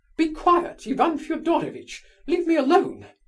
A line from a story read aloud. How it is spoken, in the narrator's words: cried Mrs